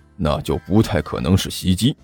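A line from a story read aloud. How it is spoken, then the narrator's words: Low muttering. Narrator (Chinese): 武坚低声嘀咕了一句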